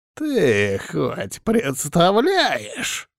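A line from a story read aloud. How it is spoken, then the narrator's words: Angry deep old voice. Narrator (Russian): Злобно пробасил старик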